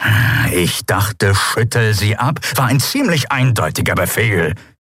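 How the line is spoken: Growl. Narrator (German): knurrte Charsu

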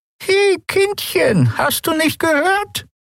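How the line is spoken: Croaking old woman. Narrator (German): krächzte die alte Frau

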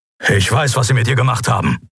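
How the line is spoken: Grumbled low. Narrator (German): brummte Keru

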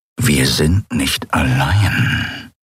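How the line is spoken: Growling. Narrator (German): knurrte er

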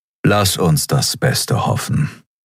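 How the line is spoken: Plain answer. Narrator (German): antwortete Telios

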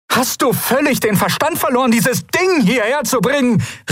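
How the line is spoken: Calling out. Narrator (German): rief sie

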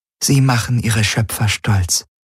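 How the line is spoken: Said with gentle smile. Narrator (German): sagte Ylana und lächelte sanft

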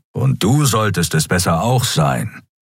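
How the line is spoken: Growl. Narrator (German): knurrte Keru

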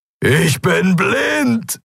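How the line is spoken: Roaring. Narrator (German): brüllte er

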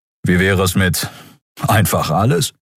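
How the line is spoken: Sighing. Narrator (German): Endriel seufzte

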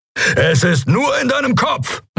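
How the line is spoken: Calling out. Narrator (German): rief er

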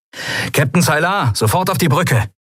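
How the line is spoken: Calling into a speaking tube. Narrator (German): rief Sephiron in eines der Sprechrohre

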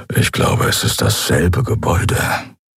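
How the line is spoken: Low quiet grumble. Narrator (German): brummte Keru leise

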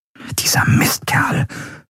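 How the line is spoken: Whisper. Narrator (German): flüsterte Andriel

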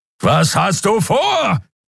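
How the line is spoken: Roaring. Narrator (German): brüllte Kero wieder

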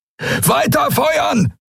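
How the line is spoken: Roaring. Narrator (German): brüllte Telios

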